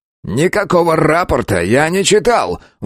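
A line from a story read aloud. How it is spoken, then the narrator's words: Shrill squeal. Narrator (Russian): взвизгнул тот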